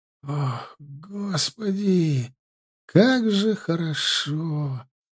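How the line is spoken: Moaning. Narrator (Russian): простонал он

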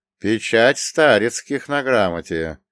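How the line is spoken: Drawling, unreadable tone. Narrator (Russian): непонятным тоном протянул Федор

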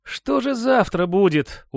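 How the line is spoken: Tired question. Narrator (Russian): устало спросил Матвей

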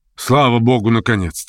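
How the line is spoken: Joyful exclamation. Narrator (Russian): радостно вскричал

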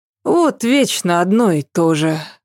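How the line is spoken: Sighing. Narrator (Russian): вздохнула Ася

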